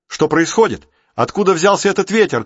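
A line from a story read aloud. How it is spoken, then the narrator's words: Shouted from afar. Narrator (Russian): крикнул Рик с палубы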